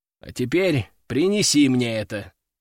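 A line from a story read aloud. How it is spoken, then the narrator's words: Calm. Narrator (Russian): спокойно сказал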